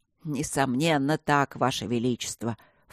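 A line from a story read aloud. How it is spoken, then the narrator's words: Sincere mumble. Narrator (Russian): вполне искренне промямлил маг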